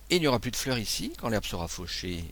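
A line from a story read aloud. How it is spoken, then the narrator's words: Cheerful exclamation. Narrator (French): m'écriai-je gaiement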